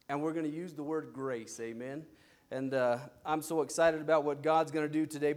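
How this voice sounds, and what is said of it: Tired voice. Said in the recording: “I'm going to try to save my voice. My voice is actually pretty tired today for some reason.”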